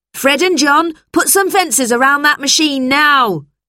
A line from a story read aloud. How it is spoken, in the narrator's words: he shouted